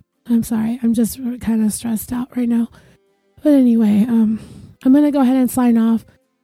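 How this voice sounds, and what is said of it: Rough, unwell-sounding voice. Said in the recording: “My voice, I know, sounds like crap ... my voice sounds like junk as well”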